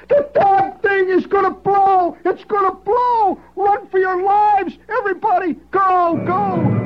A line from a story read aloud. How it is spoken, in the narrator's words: Cherry hollering